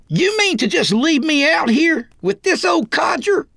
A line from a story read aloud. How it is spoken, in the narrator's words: Roy yelled like a stuck pig